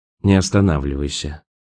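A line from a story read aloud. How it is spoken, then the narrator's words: Sighing. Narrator (Russian): вздохнул Роэн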